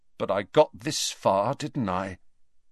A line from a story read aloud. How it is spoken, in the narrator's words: he said slowly